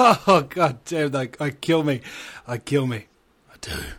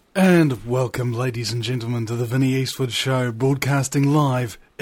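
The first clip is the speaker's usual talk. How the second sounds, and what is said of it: Announcer-style narrator voice. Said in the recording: “in my narrator voice”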